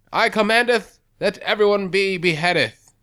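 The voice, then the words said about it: Attempted British kingly accent. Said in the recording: “kings have accents... Got a British accent in you?... Close enough.”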